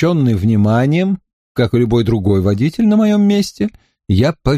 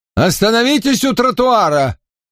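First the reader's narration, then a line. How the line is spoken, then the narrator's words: Shout. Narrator (Russian): крикнул мне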